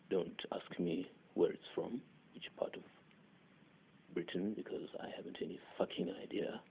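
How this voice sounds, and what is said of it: Attempted British accent. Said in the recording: “this is the closest I can get to a British accent ... I probably sound like I have a plate wedged diagonally in my throat”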